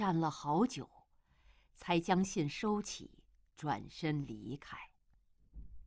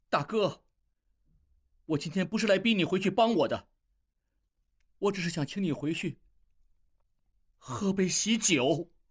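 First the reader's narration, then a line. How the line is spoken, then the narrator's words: Loud. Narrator (Chinese): 应济大声说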